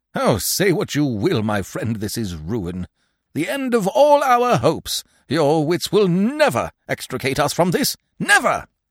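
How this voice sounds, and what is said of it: Frenzied, despairing delivery. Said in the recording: “A frenzy of despair vibrated in his accents.”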